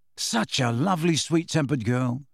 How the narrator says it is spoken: said Ron very quietly

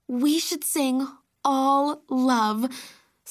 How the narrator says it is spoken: Sloane sighed dreamily

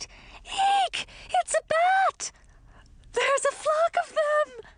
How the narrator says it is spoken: shouted

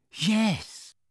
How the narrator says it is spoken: Dudley whispered, still trembling

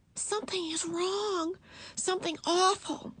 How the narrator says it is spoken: whispered Beezus

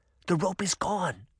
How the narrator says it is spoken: whispered

